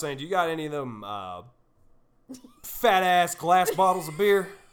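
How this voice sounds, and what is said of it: Put-on Southern US accent. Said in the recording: “it was like a southern, an old lady southern accent ... No, it wasn't a lady.”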